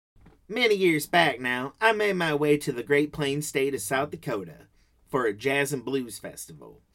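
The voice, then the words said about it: Put-on regional accent. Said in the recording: “I developed this accent, much to the chagrin of the locals, who don't talk this way at all”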